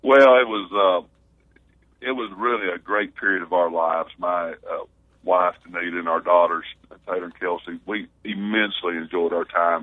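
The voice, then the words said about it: Southern American accent. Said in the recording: “This big guy, Southern accent”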